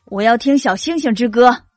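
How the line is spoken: Loud. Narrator (Chinese): 夏夏狼大声说

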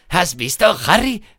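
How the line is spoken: Shouting over noise. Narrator (Spanish): le gritó Ron por encima del estruendo

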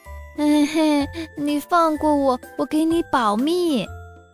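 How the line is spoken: Crying. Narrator (Chinese): 田鼠哭着说

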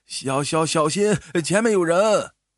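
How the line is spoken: Old man's sudden shout. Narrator (Chinese): 老人突然大叫了一声

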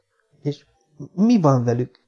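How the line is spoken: Breathless choking question. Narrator (Hungarian): kérdezte elfúló hangon

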